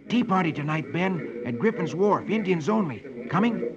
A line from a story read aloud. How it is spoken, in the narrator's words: Dick whispers to him